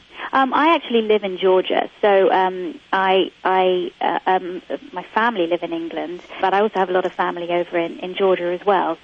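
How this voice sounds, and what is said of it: English accent. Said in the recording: “That's really a Georgia accent that you have. A lot of people confuse that with an English accent, right? ... It is, isn't it?”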